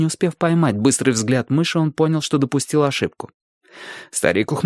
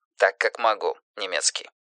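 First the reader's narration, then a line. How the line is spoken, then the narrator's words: Mutter. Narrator (Russian): пробормотал Дэвид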